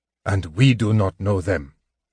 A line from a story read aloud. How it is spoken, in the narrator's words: the man growled